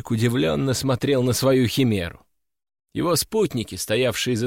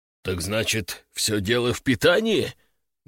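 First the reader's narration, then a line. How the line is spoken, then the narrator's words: Forced out, reluctant. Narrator (Russian): наконец выдавил он из себя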